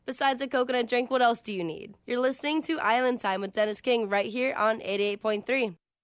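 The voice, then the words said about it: Soothing smooth radio DJ voice. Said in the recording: “soothing DJ voice”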